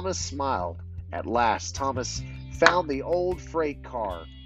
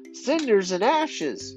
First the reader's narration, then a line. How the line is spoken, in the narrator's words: exclaimed